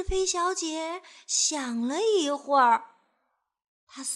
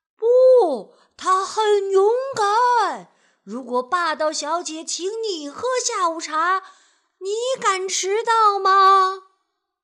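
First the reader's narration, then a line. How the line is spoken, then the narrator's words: Crowd answering loudly together. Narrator (Chinese): 人们却一起的大声回答他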